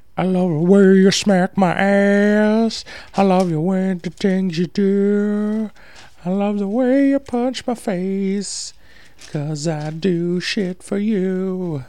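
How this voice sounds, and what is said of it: Imitates a rock singer's singing voice. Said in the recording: “That's my Puddle of Mud impression.”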